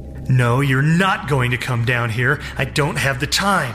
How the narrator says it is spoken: Gerald said, raising his voice for effect

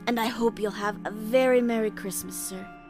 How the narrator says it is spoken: she said in a raucous, wheezy voice that suggested spirits

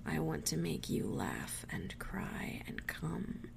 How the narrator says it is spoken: he growled softly

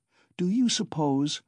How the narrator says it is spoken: Pulcheria Alexandrovna continued warmly

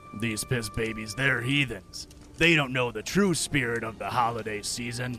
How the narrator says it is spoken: The judgy grumbled to himself

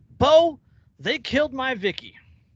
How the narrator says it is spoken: Randy called out

